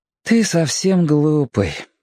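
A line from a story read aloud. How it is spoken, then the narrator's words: Tired child's voice. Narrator (Russian): устало проговорил мальчик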